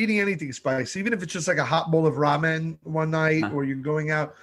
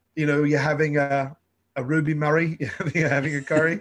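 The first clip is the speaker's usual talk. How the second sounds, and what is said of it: Put-on Cockney accent, Dick Van Dyke-style. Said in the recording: “my accents got better ... Very Dick Van Dyke.”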